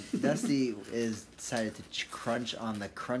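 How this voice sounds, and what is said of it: Usual voice. Nothing is said of it.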